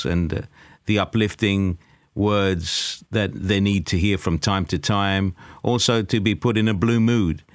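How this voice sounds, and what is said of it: English accent. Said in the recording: “that lovely English accent that he has, very unique accent”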